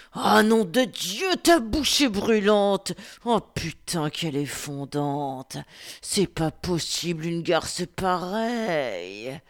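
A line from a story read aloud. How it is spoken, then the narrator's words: Grunted. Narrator (French): grogna-t-il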